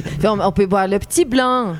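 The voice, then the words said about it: Put-on Swiss Vaud accent. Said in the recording (French): “Je peux parler un tout petit peu avec l'accent vaudois.”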